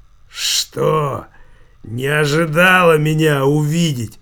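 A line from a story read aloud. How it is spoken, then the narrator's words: Hoarse wheeze. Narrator (Russian): просипел вор в законе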